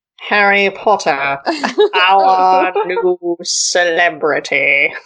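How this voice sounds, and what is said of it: Slow drawling Snape character voice. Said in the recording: “a good, like, Snape drawl ... the Potter Puppet Pal Haley Snape ... That's pretty good.”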